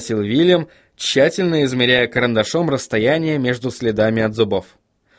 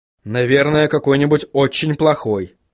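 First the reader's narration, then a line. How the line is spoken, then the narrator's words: Snorting. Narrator (Russian): хмыкнул Вильям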